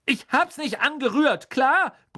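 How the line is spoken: Bellowing back. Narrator (German): brüllte Ron zurück

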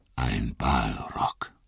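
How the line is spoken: Murmuring. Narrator (German): murmelte Gandalf

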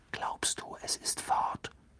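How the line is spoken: Whispering. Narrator (German): flüsterte Ron

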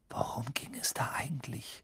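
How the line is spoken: Breathy whisper. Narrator (German): hauchte Ron

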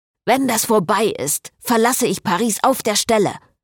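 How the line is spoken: Hissing priest. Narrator (German): fauchte der Priester

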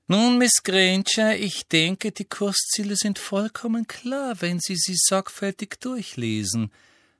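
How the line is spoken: Exaggeratedly sweet voice. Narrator (German): sagte Professor Umbridge mit ausgesucht liebenswürdiger Stimme

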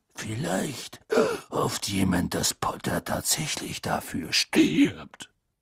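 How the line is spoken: Faint growl. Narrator (German): sagte Moody mit kaum noch merklichem Knurren

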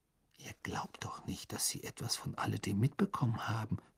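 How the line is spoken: Whisper. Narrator (German): flüsterte Hermine

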